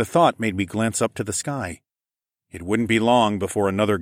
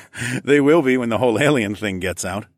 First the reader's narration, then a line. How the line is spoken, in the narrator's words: I laughed